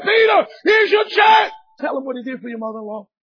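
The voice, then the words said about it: Yelling, raised emphatic voice. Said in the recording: “I'm yelling into Peter”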